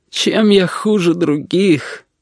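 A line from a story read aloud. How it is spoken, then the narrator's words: Sobbing. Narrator (Russian): Корнелий всхлипнул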